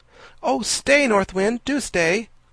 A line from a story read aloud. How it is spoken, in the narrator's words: cried Diamond, dismayed to see the windmill get slower and slower